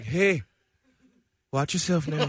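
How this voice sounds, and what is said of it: Put-on Irish accent. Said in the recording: “I'll play a gecko with an Irish accent.”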